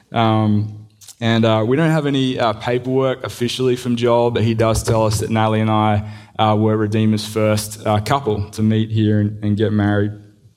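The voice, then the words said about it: Australian accent. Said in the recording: “The accent is from a small county in Mississippi. You might have heard of it. It's called Australia.”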